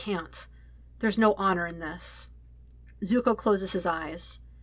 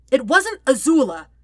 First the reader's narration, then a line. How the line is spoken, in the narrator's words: he yells eventually, fury sparking